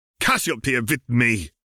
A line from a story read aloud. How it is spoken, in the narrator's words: Grindelwald snapped